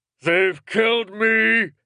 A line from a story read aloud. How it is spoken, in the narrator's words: he yelled, the words ripping from his throat